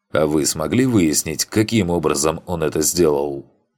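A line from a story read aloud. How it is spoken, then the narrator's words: Plain. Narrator (Russian): спросил Коулман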